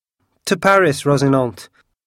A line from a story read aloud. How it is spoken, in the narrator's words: cried D'Artagnan